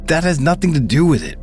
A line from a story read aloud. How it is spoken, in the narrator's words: Brian shouted